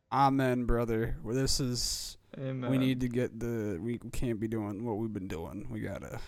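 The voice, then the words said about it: Put-on accent, not his own. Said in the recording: “I don't know why I'm speaking in this accent. Not my accent.”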